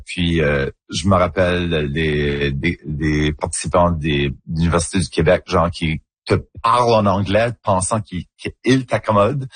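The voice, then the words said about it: Acadian French accent. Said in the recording (French): “mon accent en acadien ... un accent un petit peu plus coloré, un petit peu plus rond, arrondi”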